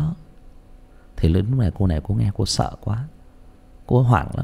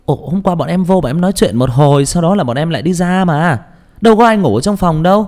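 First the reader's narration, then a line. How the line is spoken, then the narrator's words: Exclaiming. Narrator (Vietnamese): Thì một cô kêu thốt lên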